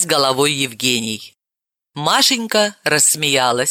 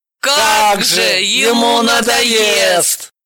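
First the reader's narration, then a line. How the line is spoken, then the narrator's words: Group wailing in chorus. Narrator (Russian): Взвыли все хором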